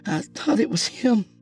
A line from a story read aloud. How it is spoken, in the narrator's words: she uttered tearfully